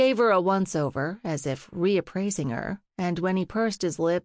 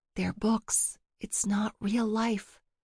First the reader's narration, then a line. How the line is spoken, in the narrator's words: She whispered